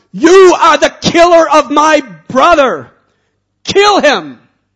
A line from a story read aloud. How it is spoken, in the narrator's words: He screamed out